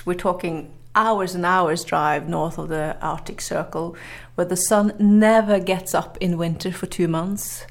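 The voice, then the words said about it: Norwegian accent in English. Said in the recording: “excuse my accent, but uh, that's that's from from my upbringing in Norway”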